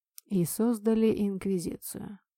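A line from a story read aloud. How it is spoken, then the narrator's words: Quiet. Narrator (Russian): тихо сказал Лисухен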